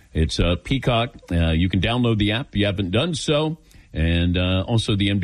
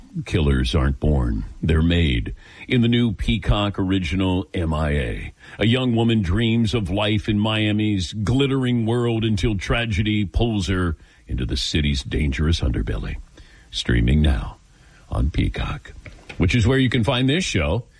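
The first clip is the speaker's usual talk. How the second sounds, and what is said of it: Dramatic announcer voice. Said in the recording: “I got to do this in my announcer voice. ... Less dramatic voice.”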